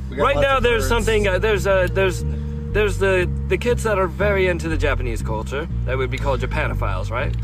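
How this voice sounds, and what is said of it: Put-on British accent. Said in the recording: “So are you actually British, or is this just an accent? ... Oh, this is a put on. I was born in Nebraska. ... you just prefer to talk in this British voice.”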